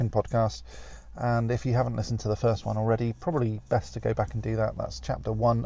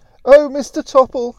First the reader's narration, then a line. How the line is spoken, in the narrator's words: she cried